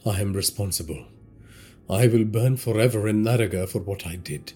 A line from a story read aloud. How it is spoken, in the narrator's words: Tejas muttered